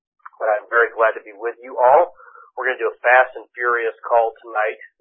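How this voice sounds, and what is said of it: Hoarse, froggy voice. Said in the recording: “Pardon my voice, I got a little frog in my throat tonight.”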